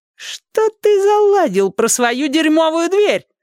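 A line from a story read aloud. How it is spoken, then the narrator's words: Squeaky voice. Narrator (Russian): запищал коротышка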